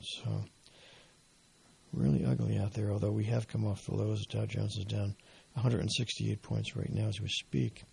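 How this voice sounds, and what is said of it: Strained, failing voice. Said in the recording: “as you can probably tell, I'm losing my voice.”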